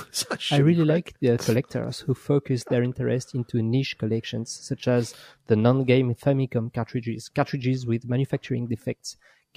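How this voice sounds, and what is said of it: French accent. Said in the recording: “I'm ... from France, so sorry for my shitty accent.”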